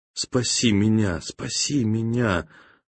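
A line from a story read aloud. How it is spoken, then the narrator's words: Crying whisper. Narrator (Russian): он плакал и шептал жене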